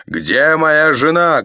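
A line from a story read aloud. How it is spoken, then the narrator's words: Barked shout. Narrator (Russian): гаркнул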